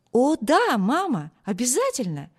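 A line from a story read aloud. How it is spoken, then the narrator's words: Excited. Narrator (Russian): взволнованно сказал он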